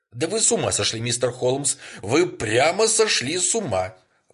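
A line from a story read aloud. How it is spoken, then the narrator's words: Female exclamation. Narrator (Russian): воскликнула она наконец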